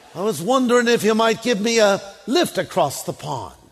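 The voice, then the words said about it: Put-on British accent for character. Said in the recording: “I just thought a scorpion would have a British accent.”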